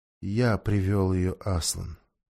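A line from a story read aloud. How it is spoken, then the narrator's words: Quiet. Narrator (Russian): тихо сказал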